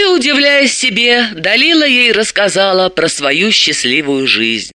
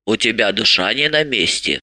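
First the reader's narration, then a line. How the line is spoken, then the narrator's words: Grumbling. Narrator (Russian): проворчала Марья Ивановна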